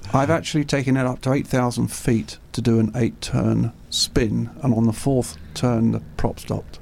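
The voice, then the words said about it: British accent. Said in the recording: “I'm assuming you're British. You've got an accent.”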